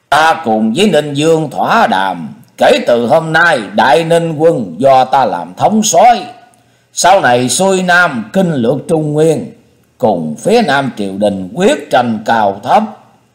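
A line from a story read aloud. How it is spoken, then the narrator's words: Loud declaration. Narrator (Vietnamese): Yến Dương lớn tiếng nói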